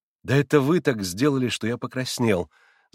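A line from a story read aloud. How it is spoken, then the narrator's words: Laughing. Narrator (Russian): Засмеялся Алеша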